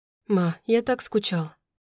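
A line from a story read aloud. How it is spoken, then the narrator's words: Quiet. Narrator (Russian): тихо сказал Радей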